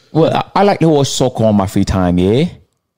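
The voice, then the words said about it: Put-on British accent. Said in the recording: “I've been working on my accent. Was it good, though? ... I'm British, yeah?”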